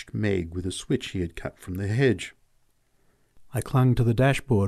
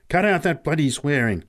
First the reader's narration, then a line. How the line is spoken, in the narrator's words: snapped Pat angrily